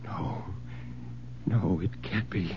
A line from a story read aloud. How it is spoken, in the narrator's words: Bill whispered